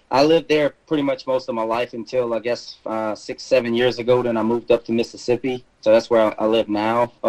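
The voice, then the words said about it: Slight South Louisiana accent. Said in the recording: “I'm originally from South Louisiana, which you'll probably hear a little bit of that in my accent.”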